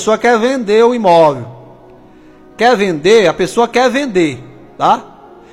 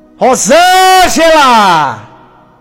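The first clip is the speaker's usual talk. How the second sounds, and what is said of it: Shouting a name. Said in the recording (Portuguese): “E o grito é esse, ó. ... Tá gritando desse jeito, ó.”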